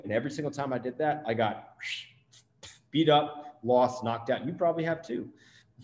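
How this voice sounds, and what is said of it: New Jersey accent. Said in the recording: “My Jersey accent just came out there.”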